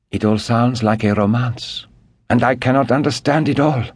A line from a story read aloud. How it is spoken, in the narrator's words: sighed the Comtesse